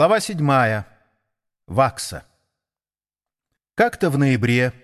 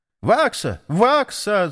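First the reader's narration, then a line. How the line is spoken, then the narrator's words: Sparrow shouting from roof. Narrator (Russian): закричал воробей с крыши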